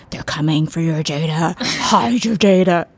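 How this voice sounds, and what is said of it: Spooky scary voice. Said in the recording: “Is that a good scary voice?”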